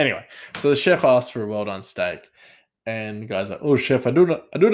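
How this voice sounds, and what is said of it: Usual voice. Nothing is said of it.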